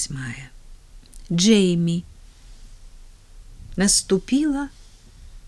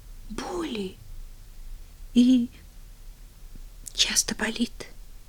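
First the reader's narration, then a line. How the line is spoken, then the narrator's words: Hesitant sympathetic mutter. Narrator (Russian): С запинкой пробормотала Полиана, которая была теперь само сочувствие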